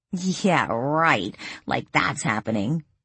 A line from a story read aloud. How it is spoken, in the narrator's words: Lily laughed